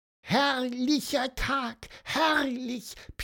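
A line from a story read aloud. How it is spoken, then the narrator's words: Squeaky voice. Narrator (German): piepste Pieper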